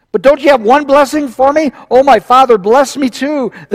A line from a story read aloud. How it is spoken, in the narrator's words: Esau pleaded